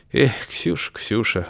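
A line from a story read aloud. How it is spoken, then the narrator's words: Sighing. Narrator (Russian): вздохнул Августин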